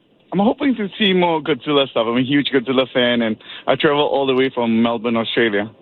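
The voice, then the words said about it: Australian accent. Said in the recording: “I love that Australian accent.”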